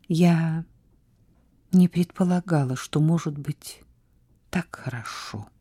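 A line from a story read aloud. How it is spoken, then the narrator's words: Satisfied whisper. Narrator (Russian): прошептала она удовлетворенно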